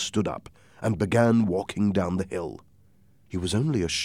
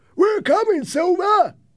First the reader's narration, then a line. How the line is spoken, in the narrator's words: they shouted